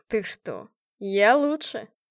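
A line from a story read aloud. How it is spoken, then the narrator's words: Snorting chuckle. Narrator (Russian): хмыкнул Марат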